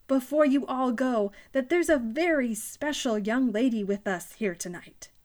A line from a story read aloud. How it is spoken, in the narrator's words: Danny proclaimed loudly